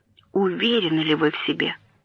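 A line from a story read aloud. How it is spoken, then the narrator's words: Quiet question. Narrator (Russian): Его собственный помощник тихо спросил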